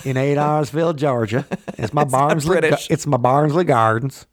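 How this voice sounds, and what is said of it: Weak put-on Southern accent. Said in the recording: “that's not even a very good Southern accent”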